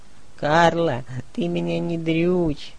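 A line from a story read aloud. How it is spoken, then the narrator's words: Moaning. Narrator (Russian): Снова застонал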